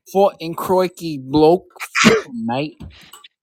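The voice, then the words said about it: Put-on Australian accent. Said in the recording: “the Australian accent”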